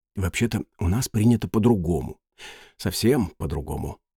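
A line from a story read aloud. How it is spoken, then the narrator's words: Quiet, after clearing throat. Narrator (Russian): человечек прокашлялся и тихо сказал Петеру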